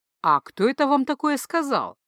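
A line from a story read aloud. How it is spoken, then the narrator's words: Ingratiating, insinuating question. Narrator (Russian): Вкрадчиво поинтересовался Джейка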